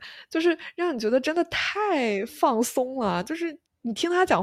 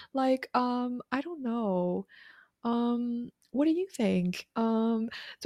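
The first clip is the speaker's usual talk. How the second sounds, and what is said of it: Valley Girl accent, filler-heavy. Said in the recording (Chinese): “加州有一个口音，英语口音叫 Valley Girl，就很那种”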